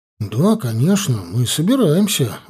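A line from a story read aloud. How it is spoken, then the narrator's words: Earnest exclamation. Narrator (Russian): воскликнул на полном серьезе друг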